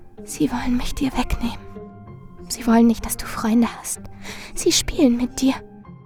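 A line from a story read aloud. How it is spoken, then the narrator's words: Steady whisper. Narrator (German): Marilyn flüsterte unbeirrt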